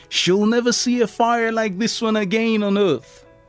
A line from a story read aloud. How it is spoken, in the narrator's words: Edison excitedly told his son